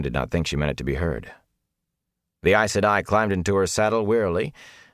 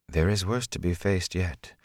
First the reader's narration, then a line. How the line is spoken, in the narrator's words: Moraine said softly